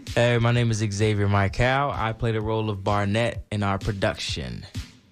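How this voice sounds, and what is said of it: Smooth deep radio voice. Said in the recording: “got that radio voice ... Smooth ... Is that a fake voice?”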